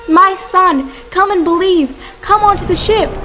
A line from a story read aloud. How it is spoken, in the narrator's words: Prophet Nuh saw his son, Canaan, and shouted